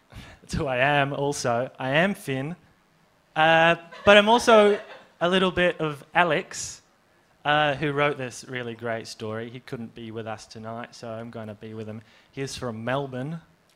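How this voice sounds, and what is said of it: Fake Australian accent. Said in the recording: “doing a fake Australian accent”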